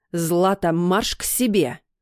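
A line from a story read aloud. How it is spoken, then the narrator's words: Barked. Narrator (Russian): рявкнула мама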